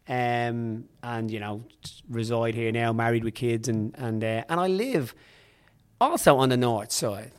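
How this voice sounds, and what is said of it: Irish Dublin accent. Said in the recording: “Obviously, with my accent, ... I was born in Dublin, raised there”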